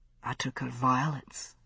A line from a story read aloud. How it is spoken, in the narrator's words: he said, so softly I almost didn't hear him